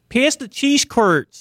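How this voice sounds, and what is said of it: Impression of a Wisconsinite. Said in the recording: “a great impression ... that impression funny that ... just made about Wisconsinites”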